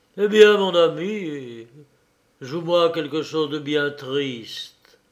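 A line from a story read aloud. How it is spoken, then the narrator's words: Sighing. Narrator (French): Dymov lui disait, en poussant un soupir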